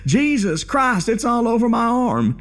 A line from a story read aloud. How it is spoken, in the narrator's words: he freaking screamed, and he yells